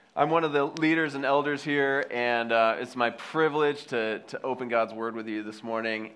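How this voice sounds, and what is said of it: Slightly congested voice from cold. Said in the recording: “I have a little cold, so bear with me today. Sound a little weird as I hear myself.”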